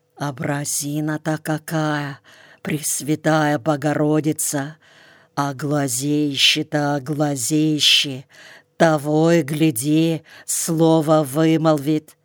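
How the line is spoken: Whispering. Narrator (Russian): шептала

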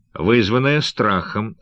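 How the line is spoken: Laughing reply. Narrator (Russian): ответил Трамель Найк, смеясь

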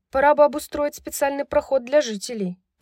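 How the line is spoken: Grumbling. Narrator (Russian): проворчала Брайс

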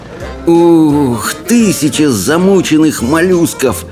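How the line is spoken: Groaning. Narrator (Russian): простонал рыбий ног

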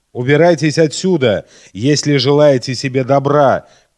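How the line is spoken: Sudden shout of realization. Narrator (Russian): крикнул он вдруг, точно сообразив, кто мы такие

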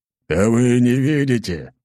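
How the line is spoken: Angry growl. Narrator (Russian): зло рыкнул в ответ Ротай

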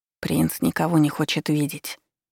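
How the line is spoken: Quiet. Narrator (Russian): произнес он негромко

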